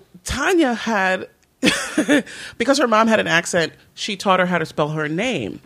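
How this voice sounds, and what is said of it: Usual voice. Nothing is said of it.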